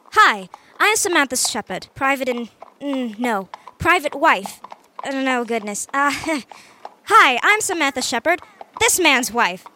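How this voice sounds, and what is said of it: Put-on American accent. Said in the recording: “You guys don't exactly sound like you'd be American cousins... I can try my hand at imitating these folks.”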